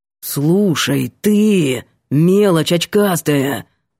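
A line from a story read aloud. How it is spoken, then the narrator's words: Growled, looming. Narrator (Russian): прорычал Ванька, нависнув сверху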